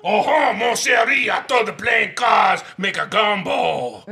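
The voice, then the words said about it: Put-on Cajun accent, sounds French. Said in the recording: “Was that your Cajun accent? ... This sounds more French. ... that's French inside. ... Quebecois”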